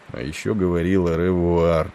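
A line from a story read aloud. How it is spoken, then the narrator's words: Mutter to no one. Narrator (Russian): пробормотал он, никому не обращаясь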